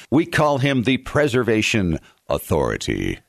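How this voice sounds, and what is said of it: Voice drops low in pitch. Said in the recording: “Why does my voice go down when I say authority?”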